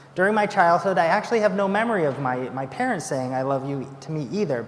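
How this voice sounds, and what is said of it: American accent with a twang. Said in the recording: “my American twang”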